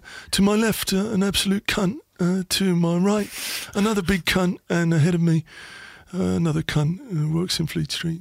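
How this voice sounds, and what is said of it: Impression of Neil Ashton. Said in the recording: “Or Neil Ashton, Sunday supplement here. Neil Ashton. ... That's good as well.”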